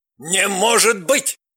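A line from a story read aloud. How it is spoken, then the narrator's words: Barked. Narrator (Russian): рявкнул Соболев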